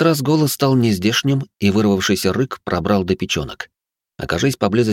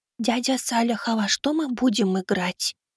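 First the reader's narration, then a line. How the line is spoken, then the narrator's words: Lowered to a whisper. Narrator (Russian): Аврора понизила голос до шепота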